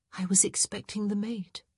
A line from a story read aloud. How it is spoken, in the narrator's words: she murmured